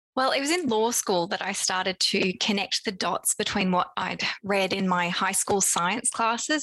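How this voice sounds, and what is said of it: Australian accent. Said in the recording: “my accent. I'm Australian originally, but now based in London.”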